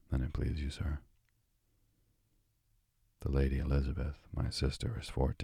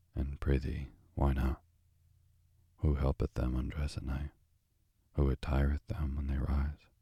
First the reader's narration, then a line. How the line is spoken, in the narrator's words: gravely, then said